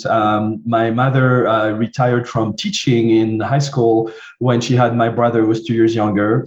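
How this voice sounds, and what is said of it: French accent. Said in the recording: “I grew up in France, as you can hear from my accent.”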